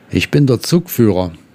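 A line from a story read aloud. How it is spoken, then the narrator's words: Plain. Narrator (German): antwortete der andere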